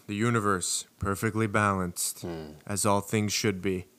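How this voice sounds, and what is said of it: Thanos character voice impression. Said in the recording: “My best Thanos impression.”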